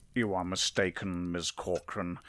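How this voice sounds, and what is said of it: Sinister villain voice. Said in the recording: “As you can tell by my voice, I am a sinister debtor.”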